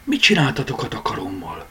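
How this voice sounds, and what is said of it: Whispered line. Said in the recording (Hungarian): “Suttogta.”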